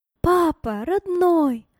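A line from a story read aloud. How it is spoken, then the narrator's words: Loud exclamation. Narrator (Russian): громко воскликнула она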